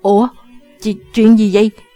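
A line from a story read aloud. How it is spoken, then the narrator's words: Stunned stammering question. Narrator (Vietnamese): Chàng ta ngỡ ngàng, lắp bắp hỏi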